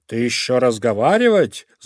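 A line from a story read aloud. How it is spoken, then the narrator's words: Snarling growl. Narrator (Russian): зарычал шакал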